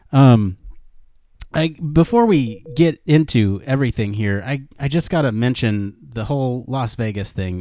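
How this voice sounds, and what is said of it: Sick, unsteady voice. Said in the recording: “I am a little sick this week ... I'm feeling a little under the weather, so if my voice is kind of coming in and out throughout the show”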